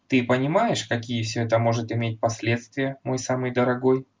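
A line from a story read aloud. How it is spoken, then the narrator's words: Plain. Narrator (Russian): спросила она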